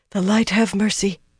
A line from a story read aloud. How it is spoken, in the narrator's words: she breathed fervently